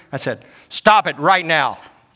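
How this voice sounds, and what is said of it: Stern commanding dad voice. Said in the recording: “Use the dad voice”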